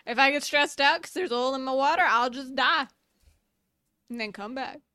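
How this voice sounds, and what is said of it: Character voice in southern accent. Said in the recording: “this jellyfish is a very southern accent”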